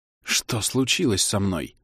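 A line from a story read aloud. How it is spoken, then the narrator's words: Frightened whisper. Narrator (Russian): спросил он испуганным шепотом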